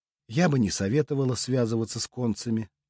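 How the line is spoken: Soft witch voice. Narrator (Russian): мягко произнесла ведьма

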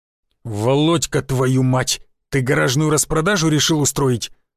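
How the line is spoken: Hissing. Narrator (Russian): прошипел Гвоздев

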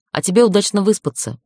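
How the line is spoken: Snorting. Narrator (Russian): фыркнула я

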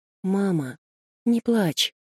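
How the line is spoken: Boy whispering half-asleep. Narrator (Russian): Мальчик сквозь сон прошептал

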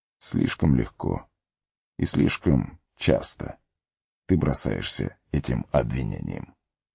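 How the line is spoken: Calm. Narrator (Russian): спокойно ответил Гэндальф

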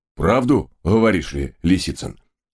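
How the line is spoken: Loud chuckling cabman. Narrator (Russian): в голос хохотнул рыжий кэбмен

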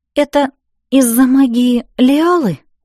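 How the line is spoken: Trembling questioning voice. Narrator (Russian): уточнила дрожащим голосом

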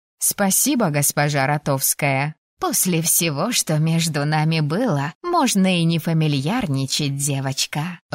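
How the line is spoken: Laughing kind woman. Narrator (Russian): рассмеялась добрая женщина

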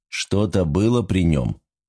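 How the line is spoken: Calm inquiry. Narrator (Russian): спокойно поинтересовался Жан-Пьер

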